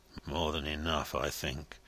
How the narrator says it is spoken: muttered Joey Ladle

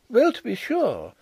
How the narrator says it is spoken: exclaimed Miss Chubb

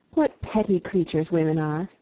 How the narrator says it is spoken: I exclaimed

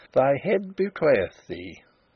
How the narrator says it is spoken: he chuckled

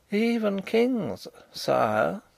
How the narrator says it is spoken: said Rupert in a moralising tone

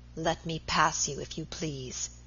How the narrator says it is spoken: he said in an icy voice

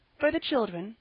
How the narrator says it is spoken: added timidly

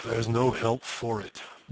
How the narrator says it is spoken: murmured Clem's mother gloomily

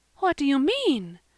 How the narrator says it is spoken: gasped Mrs

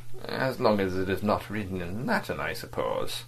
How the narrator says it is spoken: Vladimir, smiling faintly, murmured

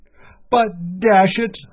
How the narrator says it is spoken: cried

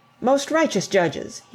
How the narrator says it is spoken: he exclaimed

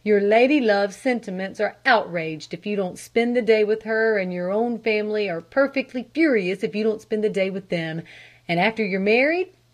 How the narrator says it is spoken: he sighed

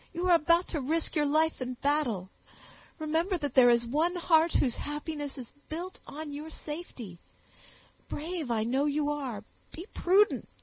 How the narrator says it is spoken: added the sobbing girl

